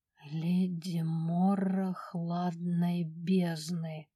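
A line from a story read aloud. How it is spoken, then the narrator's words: Sudden bewildered whisper. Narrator (Russian): вдруг прошептала она, не понимая, откуда берутся эти слова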